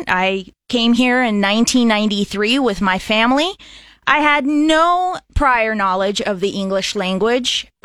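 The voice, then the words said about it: American English accent. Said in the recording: “I sound American.”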